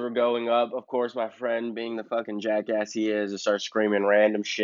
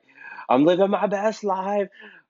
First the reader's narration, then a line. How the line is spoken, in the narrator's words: scream out